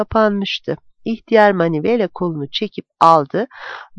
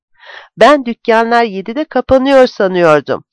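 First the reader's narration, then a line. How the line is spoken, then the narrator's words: Shouted. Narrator (Turkish): diye bağırdı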